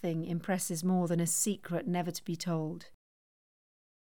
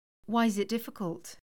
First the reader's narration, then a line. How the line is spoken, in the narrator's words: Sophie asked